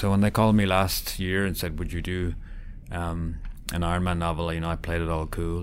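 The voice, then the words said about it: Irish accent. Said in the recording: “as you can tell from my accent, I'm Irish”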